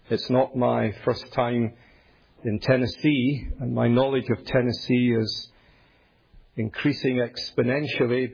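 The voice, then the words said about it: Scottish accent, Glasgow. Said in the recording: “You'll gather from my accent that I'm not from here... it is Scottish... I'm a Scot, born and raised in the great city of Glasgow.”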